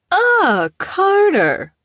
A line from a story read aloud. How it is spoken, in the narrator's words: she exclaimed